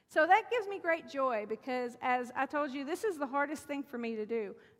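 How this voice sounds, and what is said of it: Hillbilly-sounding accent. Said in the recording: “I feel like I sound like a hillbilly when I'm up here ... you're not from here ... Never noticed my accent until I moved here. And then it was like, boom, you're a hillbilly.”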